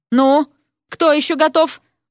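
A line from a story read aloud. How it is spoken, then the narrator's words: Sighing question. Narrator (Russian): вздохнув, поинтересовался Эрик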